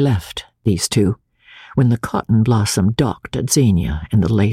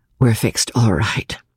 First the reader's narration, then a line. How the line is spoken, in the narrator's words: Julie replied quietly